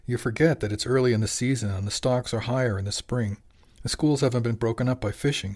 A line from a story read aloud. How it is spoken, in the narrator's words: she said